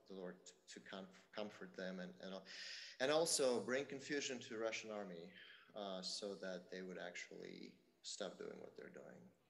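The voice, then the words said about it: Foreign accent, hard to follow. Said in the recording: “I don't know if you caught all that with his accent”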